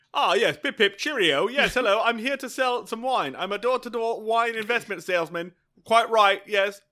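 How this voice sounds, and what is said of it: Exaggerated bad English accent. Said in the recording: “the worst English accent I have ever heard”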